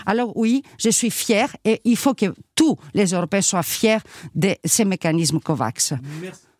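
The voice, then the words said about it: Greek accent speaking French. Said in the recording (French): “Franco-grec, eurodéputé, on l'a entendu à votre accent”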